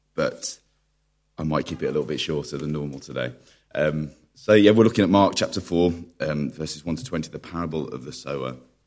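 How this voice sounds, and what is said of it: Unusually deep, husky strained voice. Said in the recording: “you have a Barry White impersonator preaching to you today, so see how long I last”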